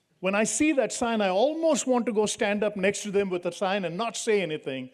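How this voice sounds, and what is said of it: Indian English accent. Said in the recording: “I'm from India, so my accent is different”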